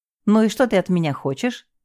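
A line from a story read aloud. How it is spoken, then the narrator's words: Cheerful question. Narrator (Russian): весело спросил он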